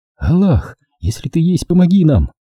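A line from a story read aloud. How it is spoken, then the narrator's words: Fervent plea. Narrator (Russian): горячо взмолилась я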